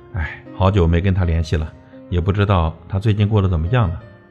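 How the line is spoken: Wistful long sigh. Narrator (Chinese): 你长叹一声

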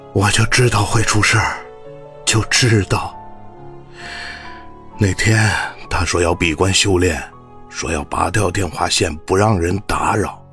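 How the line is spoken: Murmuring. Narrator (Chinese): 王董喃喃道

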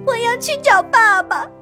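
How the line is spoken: Crying, shouting. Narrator (Chinese): 贝尔哭了，他喊着

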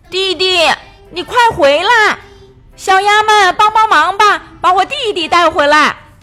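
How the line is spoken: Loud calling. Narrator (Chinese): 岸边的波马大声呼喊

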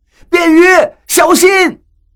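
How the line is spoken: Alarmed cry. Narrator (Chinese): 张广川和何洛的惊叫声

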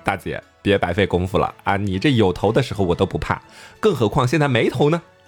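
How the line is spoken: Calm, laughing. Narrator (Chinese): 老曹还是非常淡定，笑着说

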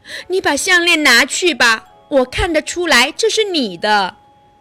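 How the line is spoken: Kind gentle voice. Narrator (Chinese): 好心的小公主说

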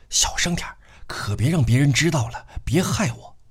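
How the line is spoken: Hurried. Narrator (Chinese): 他就急忙开口说道

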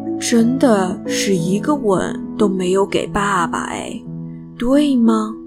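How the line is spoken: Sighing. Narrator (Chinese): 说完，叹了口气

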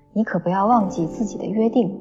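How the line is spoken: Laughing reply. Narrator (Chinese): 二位女子 也笑着回答

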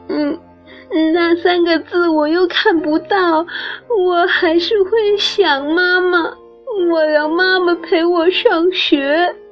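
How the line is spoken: Crying. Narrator (Chinese): 他哭着说

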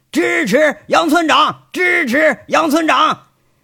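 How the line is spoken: Rowdy group chant. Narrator (Chinese): 这金刚和几个民兵开始起哄了，举着拳头开喊

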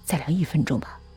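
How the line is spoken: Mumbling to himself. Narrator (Chinese): 他喃喃自语

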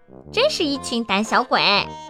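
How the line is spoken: Shrill. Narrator (Chinese): 他们尖声说

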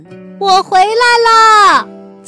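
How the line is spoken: Loud shout. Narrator (Chinese): 他重新变回了米西，大声对青蛙们喊

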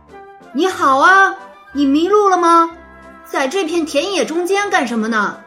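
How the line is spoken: A calf speaking. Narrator (Chinese): 说话的原来是小牛巴普蒂斯特

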